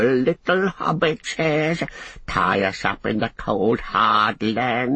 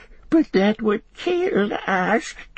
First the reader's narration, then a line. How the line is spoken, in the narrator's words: whimpered Gollum